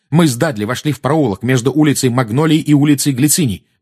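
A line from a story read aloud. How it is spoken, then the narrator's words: Fast, restrained anger. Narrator (Russian): быстро заговорил Гарри, стараясь обуздать свою злость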